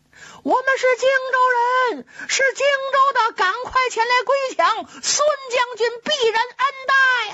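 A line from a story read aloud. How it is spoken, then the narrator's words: Loud group shouting. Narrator (Chinese): 这些人高声喊嚷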